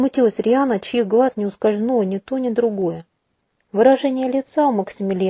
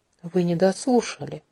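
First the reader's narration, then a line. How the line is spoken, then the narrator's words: Soft smile, hidden menace. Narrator (Russian): мягко улыбнулся Ксиль, но по моим внутренним ощущениям это больше походило на оскал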